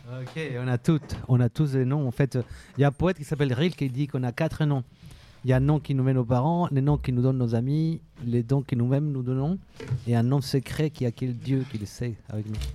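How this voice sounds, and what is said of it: Speaks with a noticeable accent. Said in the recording (French): “T'as un bel accent ... Oui, oui, j'ai un accent. Il y a un accent.”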